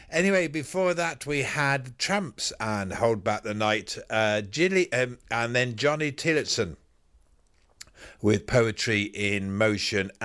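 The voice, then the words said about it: Slightly hoarse, croaky voice. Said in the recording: “I've got a little bit of a frog in my throat”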